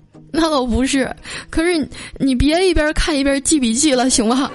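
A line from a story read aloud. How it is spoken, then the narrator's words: On the verge of tears. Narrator (Chinese): 我带着哭腔说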